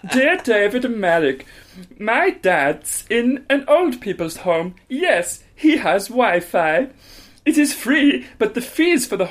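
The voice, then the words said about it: Very camp put-on German accent. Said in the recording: “Read this in a very camp German accent... I need to do German... I am doing German... make it more camp than that”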